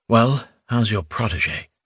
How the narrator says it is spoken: Gleb asked quietly

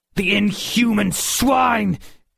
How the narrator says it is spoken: Georg roared

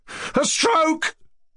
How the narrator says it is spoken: the boy shouted aloud in the street

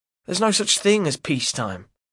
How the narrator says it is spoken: replies Albert curtly

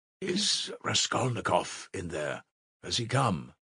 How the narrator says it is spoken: he asked him in a whisper

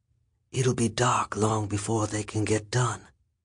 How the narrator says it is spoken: Don whispered

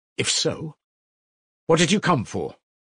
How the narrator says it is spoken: Raskolnikov asked irritably

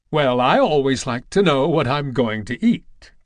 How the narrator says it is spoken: cried Aunt Rose, and laughed

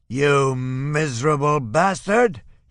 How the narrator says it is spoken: he roars

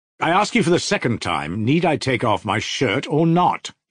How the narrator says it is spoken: he said, still more sharply and irritably

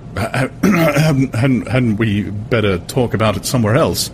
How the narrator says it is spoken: He stammered, looking horribly uncomfortable

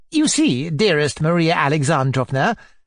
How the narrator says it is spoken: chirped Mrs

